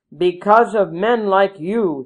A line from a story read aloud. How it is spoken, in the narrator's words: he shouted